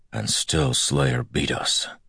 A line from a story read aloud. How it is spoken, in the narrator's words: he said bitterly